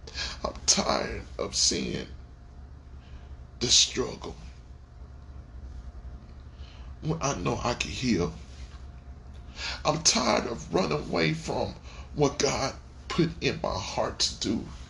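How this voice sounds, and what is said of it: Choked-up, emotional voice. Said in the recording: “Am I getting choked up? Heck yeah, I'm getting choked up. ... But it's a good choke up. It's not a sad one.”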